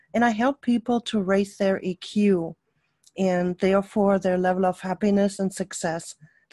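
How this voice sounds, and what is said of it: German accent. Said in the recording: “my accent is a German accent.”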